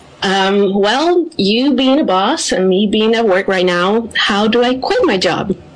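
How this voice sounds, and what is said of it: Slight non-American accent. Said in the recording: “I detect a slight non-American accent.”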